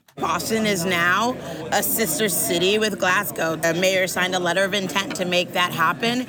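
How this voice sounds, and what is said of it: Strained, not fully recovered voice. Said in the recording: “my voice is still not fully recovered from screaming at the match on Saturday”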